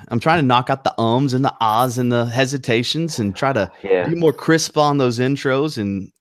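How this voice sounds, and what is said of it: Slight Southern twang. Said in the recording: “I'm from North Carolina and I have maybe a little Southern twang here and there”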